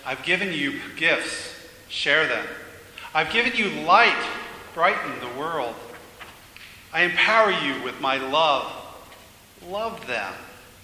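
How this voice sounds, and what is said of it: Calm, gentle yet firm voice. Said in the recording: “in a way both gentle and yet so firm ... in that same calm voice,”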